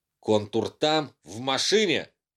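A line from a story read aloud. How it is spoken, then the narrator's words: Blurted out. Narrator (Russian): Пламя выпалил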